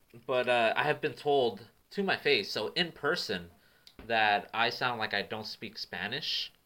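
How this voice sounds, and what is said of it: Californian accent. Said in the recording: “you have like such a Californian accent”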